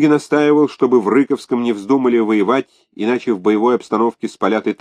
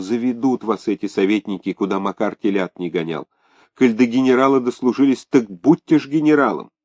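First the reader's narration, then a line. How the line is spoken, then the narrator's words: Whispered. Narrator (Russian): Фенечка Икатова шептала Ляпишеву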